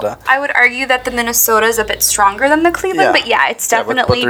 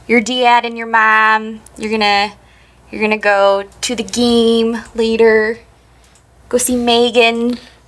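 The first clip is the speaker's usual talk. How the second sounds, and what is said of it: Cleveland accent with flat A. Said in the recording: “there's that Cleveland A ... similar to like a Minnesota accent”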